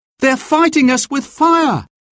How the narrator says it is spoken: Will cried

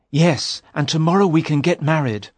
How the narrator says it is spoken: Sir Richard said excitedly

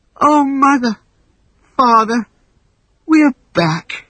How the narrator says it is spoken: Wendy sighed

